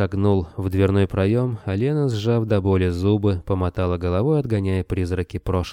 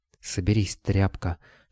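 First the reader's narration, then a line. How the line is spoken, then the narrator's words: Whispered. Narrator (Russian): шепнула она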